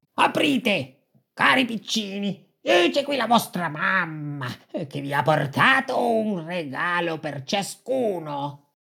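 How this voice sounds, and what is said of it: Hoarse, raspy wolf voice. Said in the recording (Italian): “voce rauca ... la tua è rauca, tu sei il lupo”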